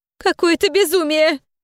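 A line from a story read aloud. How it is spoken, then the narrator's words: Sobbing mother. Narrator (Russian): всхлипнула мама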